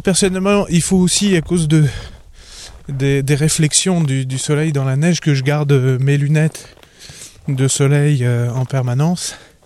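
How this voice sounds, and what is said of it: Québécois accent with slight English tinge. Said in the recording (French): “j'entends un accent québécois bien sûr, mais j'entends aussi un petit accent anglais”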